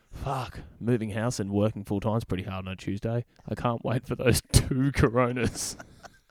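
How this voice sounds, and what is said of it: Imitates another person's voice. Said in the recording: “I'm going to do an impersonation of Lewis's internal monologue”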